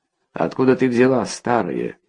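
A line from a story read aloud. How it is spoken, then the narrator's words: Rough question. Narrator (Russian): грубо спросил он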